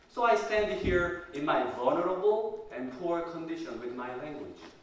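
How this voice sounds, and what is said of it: Non-native English accent. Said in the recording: “English as a second language user, mine is the worst among you... My accent is unnatural. My enunciation is difficult and awkward.”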